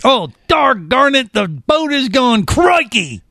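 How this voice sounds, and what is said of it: Attempted Australian accent. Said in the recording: “I got to work on my Australian accent”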